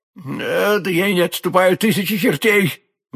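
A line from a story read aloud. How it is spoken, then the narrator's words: Forced bravado exclamation. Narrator (Russian): воскликнул гость, пытаясь с помощью проклятия вернуть себе мужество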